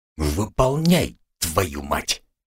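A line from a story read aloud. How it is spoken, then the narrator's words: Angry hiss. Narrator (Russian): Эдик издал злобное шипение, рассерженный на весь свет кобры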